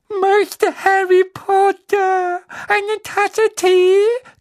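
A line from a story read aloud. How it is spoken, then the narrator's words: Loud squeak over sobbing. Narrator (German): quiekte er laut über Winkys Schluchzen hinweg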